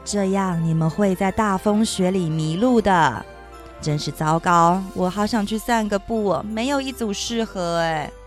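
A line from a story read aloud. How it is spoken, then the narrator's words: Sighing old man. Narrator (Chinese): 圣诞老人……叹气说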